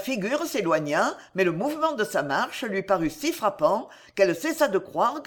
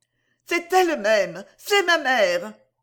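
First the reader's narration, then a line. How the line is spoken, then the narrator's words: Exclaiming. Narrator (French): s'écria-t-elle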